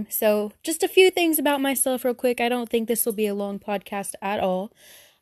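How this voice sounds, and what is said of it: Southern US accent. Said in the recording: “I don't know if you could tell from my voice, but I'm very southern.”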